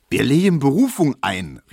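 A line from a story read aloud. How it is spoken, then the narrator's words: Calling out again. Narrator (German): rief Tesch wieder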